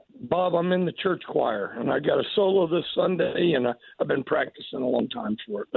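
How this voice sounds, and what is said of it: Hoarse, worn-out voice. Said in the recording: “Your voice is a wreck. Why do you yell and scream so much?”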